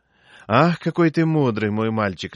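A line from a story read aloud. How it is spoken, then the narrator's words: Laughing. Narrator (Russian): рассмеялась Мария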